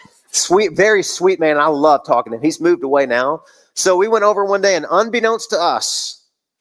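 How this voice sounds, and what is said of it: Usual voice. Nothing is said of it.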